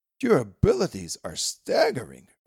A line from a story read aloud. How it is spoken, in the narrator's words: Rabbi Michal at last exclaimed